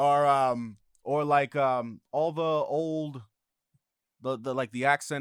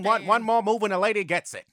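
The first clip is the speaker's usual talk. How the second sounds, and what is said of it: 1930s gangster accent, Al Capone. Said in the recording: “like the nineteen thirties gangster accent? ... Al Capone, see?”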